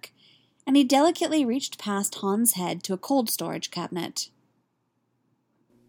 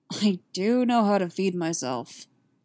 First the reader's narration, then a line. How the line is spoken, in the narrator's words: Han grumbled